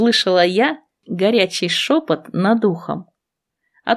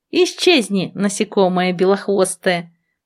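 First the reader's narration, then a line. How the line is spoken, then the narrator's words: Grumbling. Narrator (Russian): проворчала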